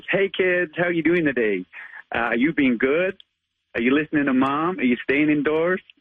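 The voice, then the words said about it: Amateur put-on American accent. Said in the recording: “I try my best American accent ... give us your American accent as Spider-Man ... I'm not the best at accents, but I do try”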